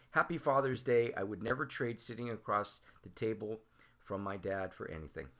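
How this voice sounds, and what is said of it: Choked-up, emotional voice. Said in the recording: “getting a little choked up”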